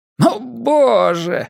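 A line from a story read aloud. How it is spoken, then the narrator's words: Exclamation. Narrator (Russian): воскликнул он наконец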